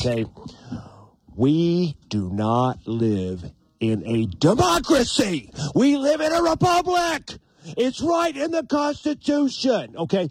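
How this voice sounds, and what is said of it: Imitates another person's voice. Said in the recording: “my Sam Kinison imitation”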